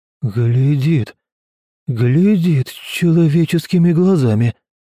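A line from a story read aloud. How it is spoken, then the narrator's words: Amazed voice. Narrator (Russian): произнес изумленным голосом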